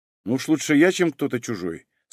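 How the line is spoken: Calm answer. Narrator (Russian): спокойно ответил Юра

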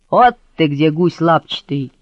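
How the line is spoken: Menacing growl. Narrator (Russian): Грозно рычит фигура

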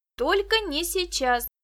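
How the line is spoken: Exclamation. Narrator (Russian): воскликнула Виктоша

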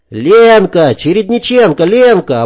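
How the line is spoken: Joyful yell. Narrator (Russian): обрадованно заорал кто-то

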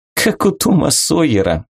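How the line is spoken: Laughing. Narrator (Russian): засмеялась Вика

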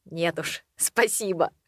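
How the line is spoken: After laughter. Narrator (Russian): отсмеявшись, сказал

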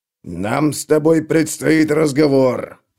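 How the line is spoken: Growling. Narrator (Russian): прорычал ему Клевер

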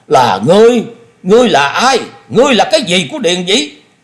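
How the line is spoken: Furious roar. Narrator (Vietnamese): Thôi Công Đức hết nhịn nổi, y gầm lên

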